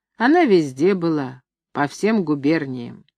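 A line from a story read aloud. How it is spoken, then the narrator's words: Confident deep bass. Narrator (Russian): нищий говорит басом уверенно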